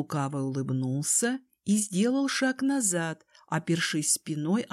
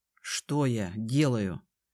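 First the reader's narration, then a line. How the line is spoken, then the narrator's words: Through gritted teeth. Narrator (Russian): процедив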